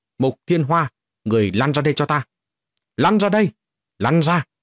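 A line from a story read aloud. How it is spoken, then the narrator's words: Loud shout. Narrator (Vietnamese): quát lớn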